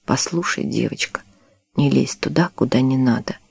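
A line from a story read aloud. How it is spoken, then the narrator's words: Hoarse voice. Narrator (Russian): Матвей хрипло произнес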